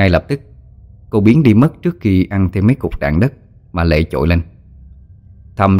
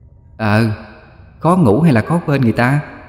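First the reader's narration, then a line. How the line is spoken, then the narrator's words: Ending in booming laughter. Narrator (Vietnamese): Na dứt câu với tràng cười vang dội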